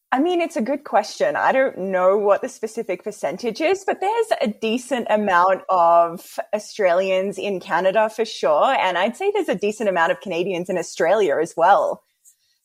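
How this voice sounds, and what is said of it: Australian accent. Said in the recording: “I knew that you're from Australia, so I was actually pretty stoked for your accent ... an Aussie accent”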